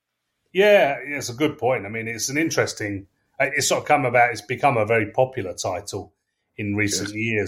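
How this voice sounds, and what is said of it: English accent. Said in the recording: “I'm English, as you can tell from my accent”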